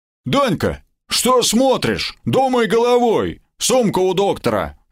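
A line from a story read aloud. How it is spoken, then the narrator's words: Barking goblin. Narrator (Russian): рявкнул гоблин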